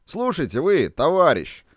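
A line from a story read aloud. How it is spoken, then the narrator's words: Contemptuous, cheerful shouting into phone. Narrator (Russian): презрительно и весело кричал в аппарат Бабиев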